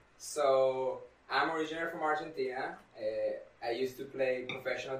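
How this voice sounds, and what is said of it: Strong foreign accent. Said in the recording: “That's my accent. I know people think I'm not from the United States ... That's why I have a big accent.”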